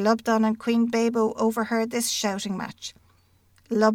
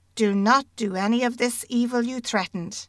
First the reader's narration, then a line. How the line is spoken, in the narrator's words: he asked them